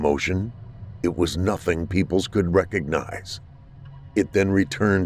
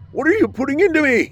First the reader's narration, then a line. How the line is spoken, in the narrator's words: He shrieked